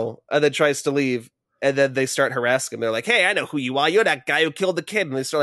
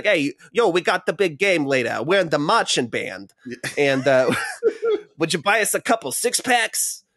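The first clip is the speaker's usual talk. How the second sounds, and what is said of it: Put-on Boston/Brooklyn accent. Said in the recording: “has like a Boston accent, a Brooklyn talk”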